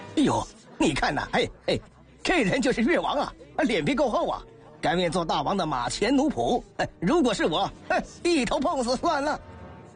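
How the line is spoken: Mocking jeers. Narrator (Chinese): 指指点点，讥笑说

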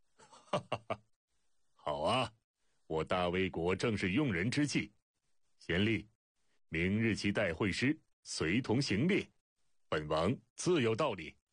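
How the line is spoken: Delighted laugh. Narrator (Chinese): 魏惠王欣然笑道

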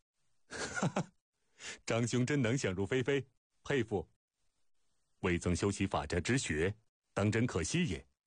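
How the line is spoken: Hearty laughter. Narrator (Chinese): 苏秦听得大笑

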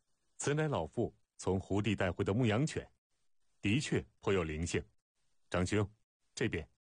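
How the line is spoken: Laughing. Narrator (Chinese): 苏秦笑道

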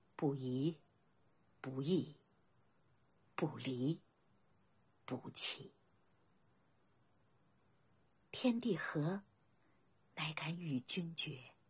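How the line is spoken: Soft recitation. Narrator (Chinese): 孝公轻声念道

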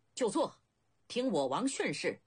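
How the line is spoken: Loud command. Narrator (Chinese): 白起又高声发令

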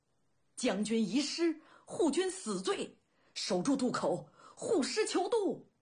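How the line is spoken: Hoarse roaring shout. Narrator (Chinese): 中军司马一声嘶喊，大吼

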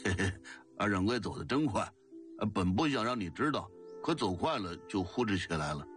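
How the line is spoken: Giggling, ingratiating. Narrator (Chinese): 他嘻嘻笑着搭讪道

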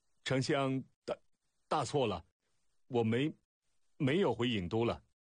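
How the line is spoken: Stammering. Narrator (Chinese): 楚使结结巴巴道

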